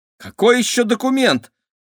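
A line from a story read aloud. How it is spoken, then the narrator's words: Exclaiming. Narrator (Russian): воскликнула Кира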